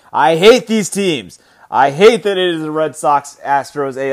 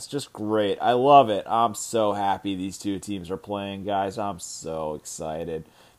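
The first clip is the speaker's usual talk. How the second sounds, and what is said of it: Sarcastic, mock-enthusiastic tone. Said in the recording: “I'm being sarcastic.”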